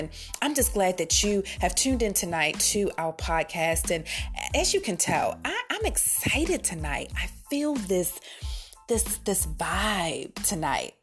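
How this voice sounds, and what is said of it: Polished radio-host voice. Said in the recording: “I've got my radio voice on. I've got my podcast voice on.”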